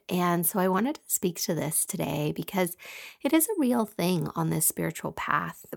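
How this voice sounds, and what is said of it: Scratchy voice. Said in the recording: “my voice is a little scratchy today”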